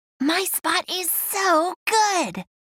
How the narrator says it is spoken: Pearl whispered to Sheldon

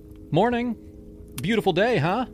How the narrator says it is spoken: called out, trying to sound casual

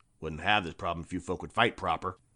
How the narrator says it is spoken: muttered in English

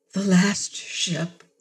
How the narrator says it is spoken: Mira whispered, her chest rising and falling

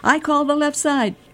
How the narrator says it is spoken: Eric, 5, yelled

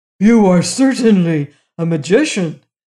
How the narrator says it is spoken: gasped the giant

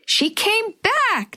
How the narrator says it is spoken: Natalie squealed

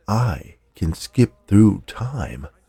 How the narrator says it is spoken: in a low voice said

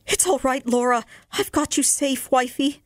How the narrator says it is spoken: I cried

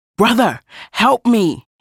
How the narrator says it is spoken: he cried out

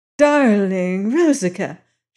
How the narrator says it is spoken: she cried

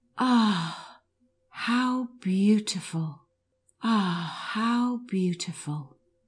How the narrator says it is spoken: Maria called out with a deep sigh

